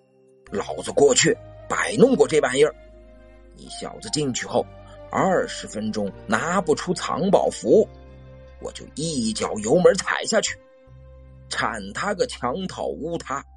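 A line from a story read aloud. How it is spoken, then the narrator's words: Low, hushed voice. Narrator (Chinese): 顾四压低嗓门说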